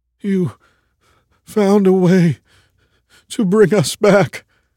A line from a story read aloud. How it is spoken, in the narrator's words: the other man said, his voice practically a whimper